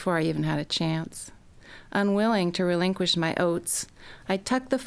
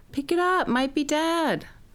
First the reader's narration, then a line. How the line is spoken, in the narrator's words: Bonnie hollered